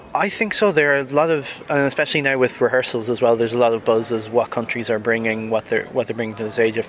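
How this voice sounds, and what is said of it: Irish accent. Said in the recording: “you can probably hear by the accent. I am originally from Ireland, from Dundalk in particular”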